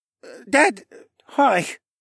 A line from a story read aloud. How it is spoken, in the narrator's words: Rylan mumbled